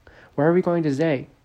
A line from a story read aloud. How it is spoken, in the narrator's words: Gavin cried out over the sound of the wind